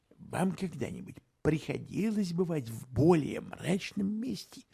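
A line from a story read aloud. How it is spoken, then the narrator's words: Muttered. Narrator (Russian): пробормотал Холмс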